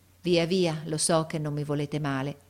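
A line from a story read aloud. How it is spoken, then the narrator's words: Sighing. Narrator (Italian): e mise un sospiro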